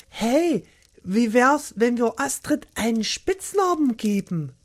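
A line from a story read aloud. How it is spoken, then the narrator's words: Calling out. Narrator (German): rief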